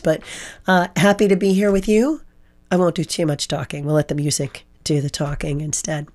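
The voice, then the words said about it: Hoarse voice. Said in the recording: “hoarse voice. Yeah, the allergies, right? The pollen everywhere. It's just making me really hoarse.”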